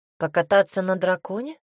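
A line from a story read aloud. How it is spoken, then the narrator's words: Calm question. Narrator (Russian): спокойно спросил у нее Коля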